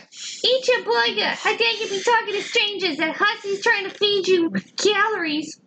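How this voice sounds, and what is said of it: Scolding mom voice, Georgia accent. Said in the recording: “I don't know why I said it like that. ... A Georgia possum. ... It was a fun mom voice.”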